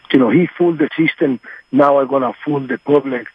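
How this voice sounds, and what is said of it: Strong distinctive accent. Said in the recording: “You've got the best accent I've ever heard in my life.”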